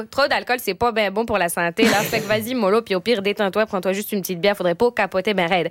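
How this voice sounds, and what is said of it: Put-on Québécois French accent. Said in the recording (French): “avec l'accent québécois, tout est mieux”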